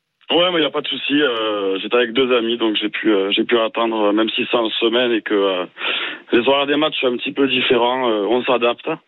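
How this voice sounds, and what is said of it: Toulouse regional French accent. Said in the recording (French): “Ton accent donc, te trahit, tu étais au stade à Toulouse”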